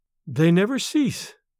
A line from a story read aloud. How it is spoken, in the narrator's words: she replied sadly